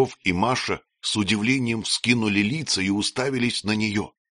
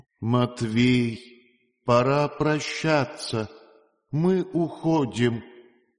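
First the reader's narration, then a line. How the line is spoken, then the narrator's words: Flat, alien, controlled voice. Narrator (Russian): ее сдавила чужая беспощадная воля, вдруг произнесла чужим картонным голосом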